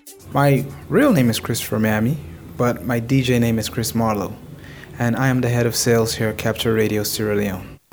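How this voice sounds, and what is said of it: Californian American accent. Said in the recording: “As his accent suggests, ... was in California”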